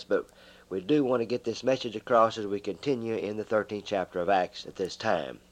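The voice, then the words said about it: Hoarse, strained voice. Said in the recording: “excuse my voice. I do have some laryngitis”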